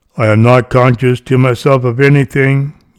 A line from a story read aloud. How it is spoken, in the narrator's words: you said